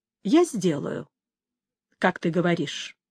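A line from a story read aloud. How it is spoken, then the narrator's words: Soft. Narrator (Russian): мягко сказал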